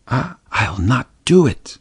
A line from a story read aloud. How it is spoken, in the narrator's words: whispered Mary, trembling